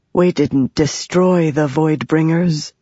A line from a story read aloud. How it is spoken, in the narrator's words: Jasnah said from behind, her voice haunted